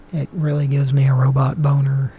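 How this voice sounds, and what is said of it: Slipping into Oklahoma accent. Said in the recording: “my Oklahoma accent came out there for a second.”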